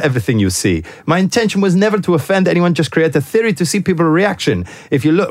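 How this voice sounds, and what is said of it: Bad Jose Mourinho accent impression. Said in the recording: “Butchering of Jose Mourinho ... I'll butcher his accent.”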